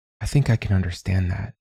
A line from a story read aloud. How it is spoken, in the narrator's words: Manya said quietly